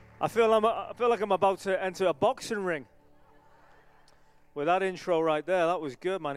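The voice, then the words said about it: Non-American accent. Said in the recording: “He likes my accent ... I meet too many American people like, man, I love your accent ... when you meet someone who's not from America”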